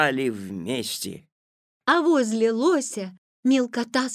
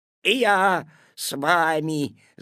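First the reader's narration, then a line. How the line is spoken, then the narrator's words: Growling. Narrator (Russian): зарычал куцый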